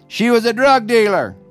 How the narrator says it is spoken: an elderly man shouted

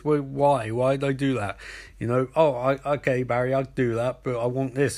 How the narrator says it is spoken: Captain Cold laughs and goes

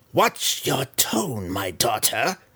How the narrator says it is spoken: Malice growled as an angry reminder

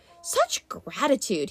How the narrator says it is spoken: he muttered

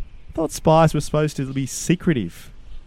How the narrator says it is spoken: Benjamin replied

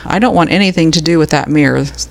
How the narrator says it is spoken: the landlord said

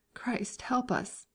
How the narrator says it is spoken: groaned an armless dragoon, coming round from the anesthetic

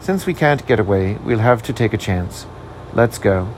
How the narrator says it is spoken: said quietly

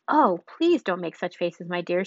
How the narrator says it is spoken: she cried out

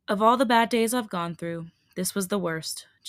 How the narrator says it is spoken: Jimin said, breaking the silence and heaving a deep sigh

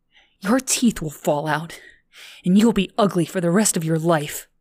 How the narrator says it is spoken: Lindsay said through panting breaths

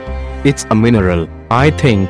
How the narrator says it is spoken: said Alice

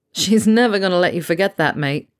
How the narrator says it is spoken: Harry laughed

